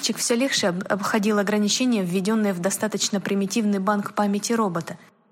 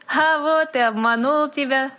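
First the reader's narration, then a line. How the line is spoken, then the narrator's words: Laughing. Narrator (Russian): засмеялся Дэви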